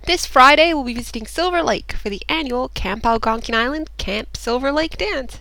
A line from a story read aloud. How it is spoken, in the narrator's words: said John, brightly